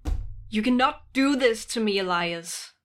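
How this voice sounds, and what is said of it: Raised, upset voice. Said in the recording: “raising your voice? ... you're quite upset right now.”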